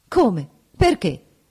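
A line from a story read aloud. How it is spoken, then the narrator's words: Quick exclamation. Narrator (Italian): esclamò rapidamente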